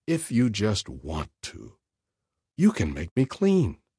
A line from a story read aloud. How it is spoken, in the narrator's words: a leper pleaded